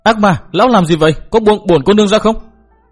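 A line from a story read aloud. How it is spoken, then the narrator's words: Loud crying out. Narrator (Vietnamese): Hà Ngọc Trì lớn tiếng kêu la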